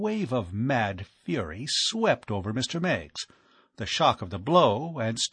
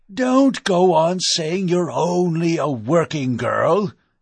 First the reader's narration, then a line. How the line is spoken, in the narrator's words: bellowed